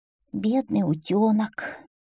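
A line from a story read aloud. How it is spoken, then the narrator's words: Sighing. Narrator (Russian): вздохнула лягушка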